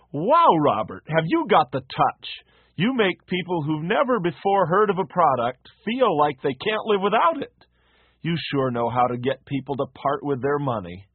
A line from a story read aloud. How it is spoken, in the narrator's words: his boss exclaimed